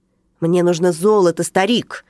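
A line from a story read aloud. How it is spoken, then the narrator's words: Angry bark, grinding teeth. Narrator (Russian): рявкнул легионер, злобно скрипнув зубами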